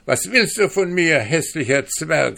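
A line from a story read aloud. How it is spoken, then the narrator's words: Calling out. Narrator (German): rief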